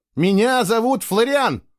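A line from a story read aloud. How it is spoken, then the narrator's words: Indignant shout. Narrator (Russian): возмущенно закричал он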